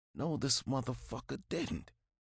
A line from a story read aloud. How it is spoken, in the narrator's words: mumbled to myself